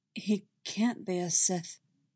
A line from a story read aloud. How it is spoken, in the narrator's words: Anakin says softly, trying to keep his voice low so that he doesn't upset his children